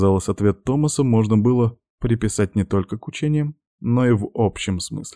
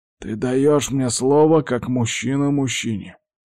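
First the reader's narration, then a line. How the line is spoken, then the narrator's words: Old man's stern, clipped words. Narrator (Russian): процедил дед суровым тоном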